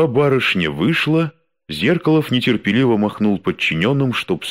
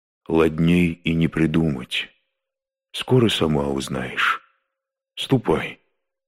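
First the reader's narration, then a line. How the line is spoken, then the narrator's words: Gentle, very quiet reply. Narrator (Russian): ответил ласково и очень тихо, чтоб не слышали остальные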